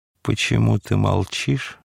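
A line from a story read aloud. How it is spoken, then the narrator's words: Hoarse quiet voice. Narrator (Russian): произнес он хриплым тихим голосом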